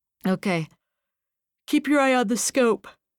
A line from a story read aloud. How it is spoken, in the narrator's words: said Runyon with a yawn